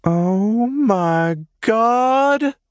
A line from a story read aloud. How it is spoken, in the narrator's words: Scarlett squealed